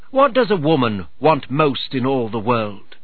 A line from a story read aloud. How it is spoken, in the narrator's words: She asked in a clear voice